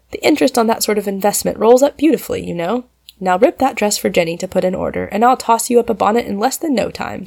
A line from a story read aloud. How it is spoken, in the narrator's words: said Polly, determined to have things go smoothly